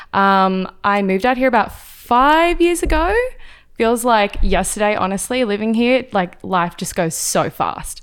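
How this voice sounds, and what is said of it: Slight Australian accent. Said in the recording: “they might hear a little bit of an accent ... a lot of people think I'm British or they think I'm from New Zealand, but I'm actually Australian”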